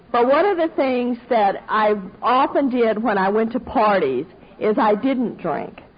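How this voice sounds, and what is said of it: Southern American accent. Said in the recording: “in case you missed the accent, I'm Southern”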